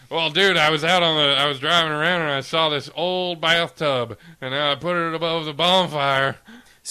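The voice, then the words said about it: Put-on Southern American accent. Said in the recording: “your southern accent”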